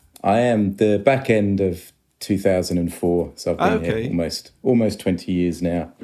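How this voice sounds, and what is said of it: Accent partly shifted toward Australian. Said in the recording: “It's definitely had an effect on your accent, I can hear. ... I think I'm stuck somewhere in the middle ... particularly Australian accent”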